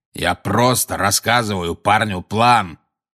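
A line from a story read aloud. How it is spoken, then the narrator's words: Growled. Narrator (Russian): прорычал Грюм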